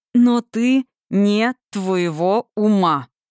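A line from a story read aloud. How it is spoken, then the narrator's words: Through teeth, each word stressed. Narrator (Russian): процедил, выделяя каждое слово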